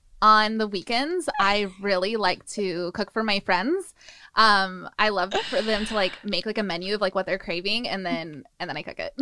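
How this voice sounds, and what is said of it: Valley Girl voice. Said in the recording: “in a Valley Girl voice”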